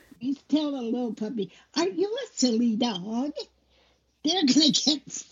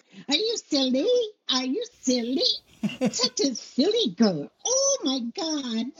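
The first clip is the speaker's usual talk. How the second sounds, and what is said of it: Silly cartoon voice for dogs. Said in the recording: “My silly voice. It's my cartoon voice ... a silly tone of voice.”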